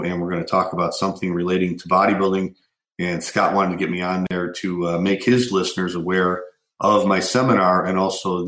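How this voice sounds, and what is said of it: Hoarse voice recovering from a cold. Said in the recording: “as you guys can hear, probably hear, I'm getting over a cold. Kind of lost my voice last week, but it's starting to come back now.”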